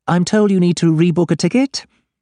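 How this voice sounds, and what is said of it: Assertive woman, light London accent. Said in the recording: “assertive with a side order of London accent that's barely been here long enough to go native”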